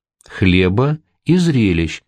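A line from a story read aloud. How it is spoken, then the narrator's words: Plain. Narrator (Russian): сказал В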